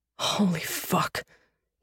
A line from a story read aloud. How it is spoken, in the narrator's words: he whispered